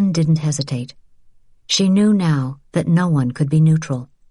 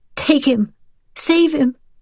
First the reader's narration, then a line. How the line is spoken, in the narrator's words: Rachel pleaded